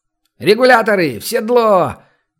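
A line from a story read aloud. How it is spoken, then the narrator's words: Shouted from the yard. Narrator (Russian): крикнул во дворе цыган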